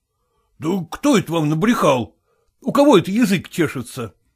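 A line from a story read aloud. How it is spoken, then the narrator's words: Exclaimed. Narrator (Russian): воскликнул он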